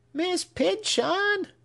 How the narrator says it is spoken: screamed the child

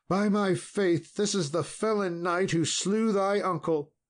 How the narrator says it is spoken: she cried

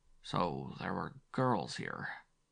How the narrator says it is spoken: Zetner muttered

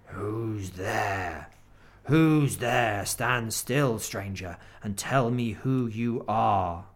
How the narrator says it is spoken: the huge creature said in a growling voice

